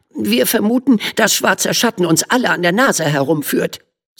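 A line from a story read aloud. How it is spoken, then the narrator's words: Plain. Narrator (German): sagte Latte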